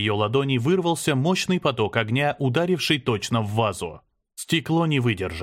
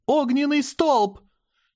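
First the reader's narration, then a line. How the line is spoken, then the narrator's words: Strained shout. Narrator (Russian): Аня с трудом выкрикнула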